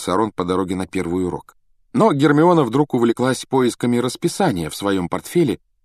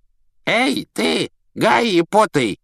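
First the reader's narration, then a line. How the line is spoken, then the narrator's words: Creaky voice. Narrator (Russian): проскрипел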